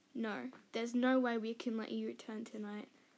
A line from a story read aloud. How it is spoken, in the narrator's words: he said